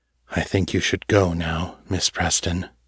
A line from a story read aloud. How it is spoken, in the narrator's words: murmured